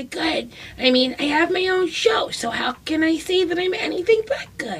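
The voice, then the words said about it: Imitates another person's voice. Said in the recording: “That's a pretty good impression ... a Maria Bamford impression”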